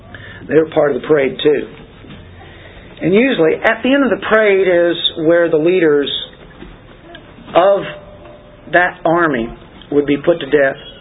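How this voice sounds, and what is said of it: Tired voice giving out. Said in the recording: “I think my voice is going. I think that's an indication.”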